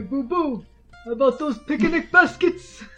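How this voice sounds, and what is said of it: Yogi Bear impression. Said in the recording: “Yogi Bear impression”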